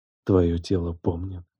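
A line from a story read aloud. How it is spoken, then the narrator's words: Whisper in ear. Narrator (Russian): прошептал я ей на ухо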